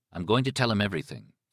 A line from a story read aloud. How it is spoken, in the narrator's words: Thad said